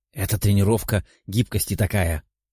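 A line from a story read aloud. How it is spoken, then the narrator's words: Whisper. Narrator (Russian): прошептала Пафи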